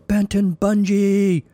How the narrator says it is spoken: the sweaty stranger in the corner screamed

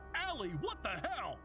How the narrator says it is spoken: Don yelled

